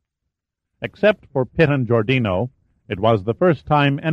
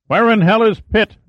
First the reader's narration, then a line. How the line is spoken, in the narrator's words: shouted